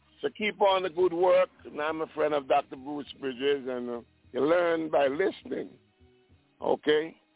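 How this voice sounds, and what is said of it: Prominent island accent. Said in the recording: “that prominent island accent”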